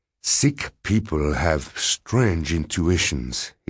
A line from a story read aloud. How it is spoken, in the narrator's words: said gravely